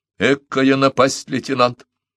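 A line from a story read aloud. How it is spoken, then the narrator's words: Old man muttering. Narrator (Russian): бормотал старик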